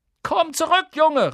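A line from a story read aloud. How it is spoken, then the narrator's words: Calling out. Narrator (German): rief sie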